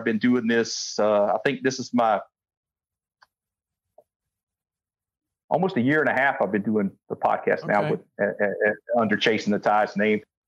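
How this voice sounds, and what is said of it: Fast-talking Georgia-Texas Southern accent. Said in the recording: “I talk fast ... my Georgia and Texas meld of accent with the little Hawaiian slang thrown in”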